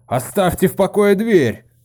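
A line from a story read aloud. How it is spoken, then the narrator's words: Shout. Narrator (Russian): крикнул он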